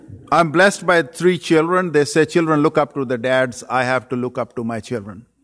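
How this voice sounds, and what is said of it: Strong non-native English accent. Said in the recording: “I cannot possibly change my accent. You might have to shift your hearing senses with me a little bit ... you sounded like a German in your accent”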